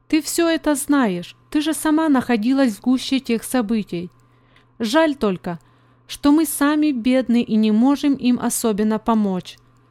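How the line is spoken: Plain. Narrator (Russian): сказала она Мии

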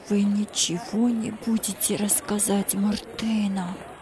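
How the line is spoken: Fearful whisper. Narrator (Russian): прошептал Джузеппе со страхом

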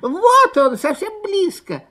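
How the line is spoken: Squeaking fox cubs. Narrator (Russian): запищали лисята

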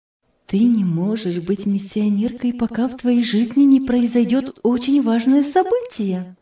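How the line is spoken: Quiet. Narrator (Russian): Затем тихо сказала

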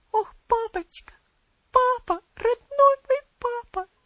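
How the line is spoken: Sobbing. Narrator (Russian): всхлипывала

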